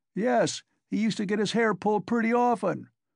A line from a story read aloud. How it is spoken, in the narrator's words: roared the commissariat clerk again, swallowing another glass of vodka